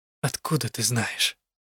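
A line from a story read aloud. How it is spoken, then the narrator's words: Barely audible. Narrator (Russian): Вопрос прозвучал чуть слышно, хотя горел у меня в груди углем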